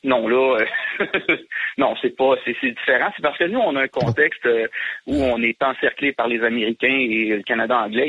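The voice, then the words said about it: Quebec French accent. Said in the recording (French): “vient de Montréal ... le petit accent qui va bien”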